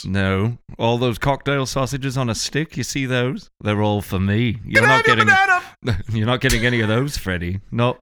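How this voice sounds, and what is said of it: Put-on Northern English accent. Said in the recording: “I'm doing the Northern English accent again. Every time, we default on the Northern English accent.”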